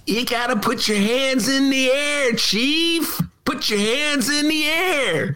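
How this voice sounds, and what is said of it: Imitates another person's voice. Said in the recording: “That's my Jack Nicholson imitation. ... That one was okay, but you really do have a good Jack Nicholson.”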